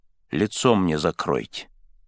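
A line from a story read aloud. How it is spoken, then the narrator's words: Quiet, exhausted. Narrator (Russian): сказал тихо, потому как силы его уже истощились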